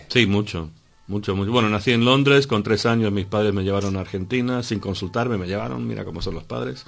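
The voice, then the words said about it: Slight Argentine Spanish accent. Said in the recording (Spanish): “tiene, digamos, un ligero acento argentino, aunque no mucho”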